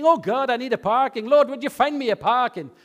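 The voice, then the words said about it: Put-on Irish accent. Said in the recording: “Get an Irish accent”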